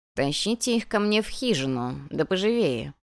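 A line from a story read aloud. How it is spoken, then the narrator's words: Creaky-voiced command. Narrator (Russian): приказал кто-то скрипучим голосом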